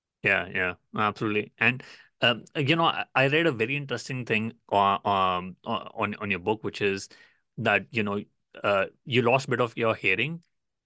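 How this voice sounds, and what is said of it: Indian English accent. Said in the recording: “my Indian accent ... that's what my accent is”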